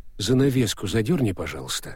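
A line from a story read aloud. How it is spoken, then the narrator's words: Calm request. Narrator (Russian): спокойно попросил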